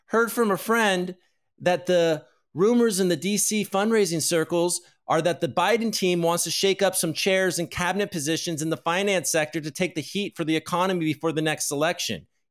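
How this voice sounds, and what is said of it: Higher-pitched imitation of Adam Cochran. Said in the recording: “we do his voice a little higher”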